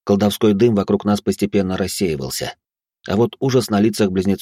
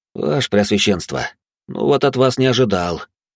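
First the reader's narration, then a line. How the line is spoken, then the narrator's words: Sighing. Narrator (Russian): вздохнул я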